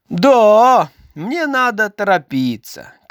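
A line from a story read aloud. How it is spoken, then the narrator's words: Shouting. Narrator (Russian): крикнул Карлсон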